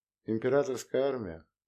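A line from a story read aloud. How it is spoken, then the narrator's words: Dismissive snort. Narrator (Russian): Саян хмыкнул, как от очередного глупого домысла вжина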